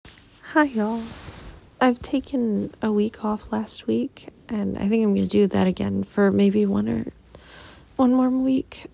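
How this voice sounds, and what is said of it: Groggy early-morning voice. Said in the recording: “Excuse my voice, it's early in the morning.”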